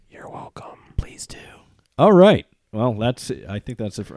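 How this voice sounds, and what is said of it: Low, tired voice. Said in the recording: “My voice is going way down in the register, so that means I'm way too tired.”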